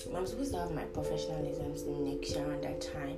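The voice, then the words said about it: Hoarse voice. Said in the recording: “Sorry for my hoarseness, the hoarseness in my voice. I kind of have a little cold.”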